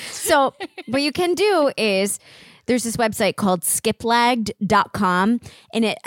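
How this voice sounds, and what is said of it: Usual voice. Nothing is said of it.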